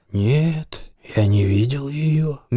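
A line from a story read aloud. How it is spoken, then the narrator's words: Slow, hoarse. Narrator (Russian): медленно ответил Лим хриплым голосом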